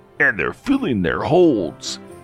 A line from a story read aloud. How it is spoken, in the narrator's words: snarled with a sneer